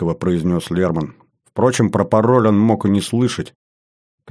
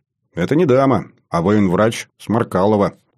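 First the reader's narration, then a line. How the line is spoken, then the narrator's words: Exaggerated stern tone. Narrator (Russian): утрированно, суровым тоном произнес я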